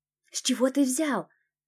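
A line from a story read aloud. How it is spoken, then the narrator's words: Whisper. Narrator (Russian): прошептала я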